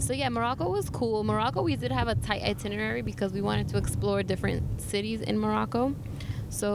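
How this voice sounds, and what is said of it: Usual voice. Nothing is said of it.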